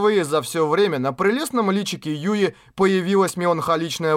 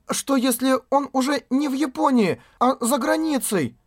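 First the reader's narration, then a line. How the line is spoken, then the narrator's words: Trembling voice. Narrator (Russian): произнесенные дрожащим голосом слова Асуны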